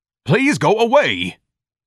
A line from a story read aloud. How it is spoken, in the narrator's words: Ignatius screamed